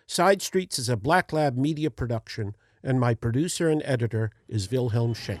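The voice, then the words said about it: Speaks with a noticeable accent. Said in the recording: “Despite my accent,”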